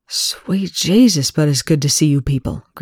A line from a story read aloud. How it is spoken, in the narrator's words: Greer whispered